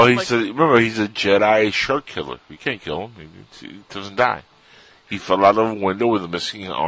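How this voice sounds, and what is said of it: Usual voice. Nothing is said of it.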